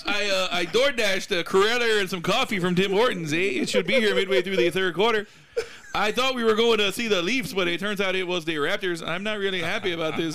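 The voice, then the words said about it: Put-on Canadian accent. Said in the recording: “my Canadian impression”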